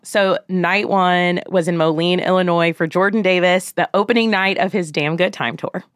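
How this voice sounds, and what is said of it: Scratchy, hoarse voice. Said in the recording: “my voice sounds a little scratchy today. It's because I have been screaming for all of our favorites.”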